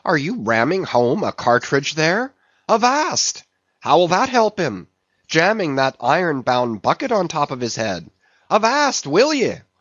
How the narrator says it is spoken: cried Stubb

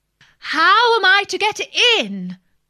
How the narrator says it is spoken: said Alice in a louder tone

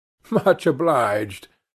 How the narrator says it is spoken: I said, laughing

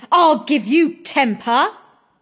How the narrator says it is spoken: screeched Maddie

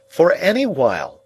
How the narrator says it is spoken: cried Herbert

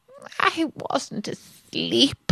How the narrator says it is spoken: he said in a hoarse, feeble voice

